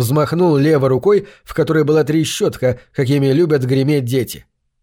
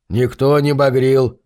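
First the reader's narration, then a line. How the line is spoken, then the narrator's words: Grumbling. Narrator (Russian): проворчал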